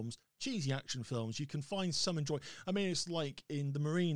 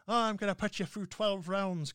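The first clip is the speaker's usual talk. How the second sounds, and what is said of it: Poor Irish-accent impression of Aidan Gillen. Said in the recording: “Good old Aidan Gillen going ... because he's doing his normal Irish accent, and I can't do an Irish accent to save my life.”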